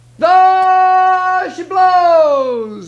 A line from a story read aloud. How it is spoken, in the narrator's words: he hollered